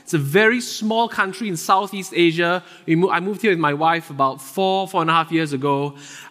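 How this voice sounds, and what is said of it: Singaporean accent. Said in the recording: “where does this guy get his accent from? ... I'm originally from Singapore.”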